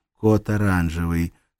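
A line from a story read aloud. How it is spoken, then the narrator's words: Calm, into microphone. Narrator (Russian): сказала она спокойно в микрофон своего устройства hands-free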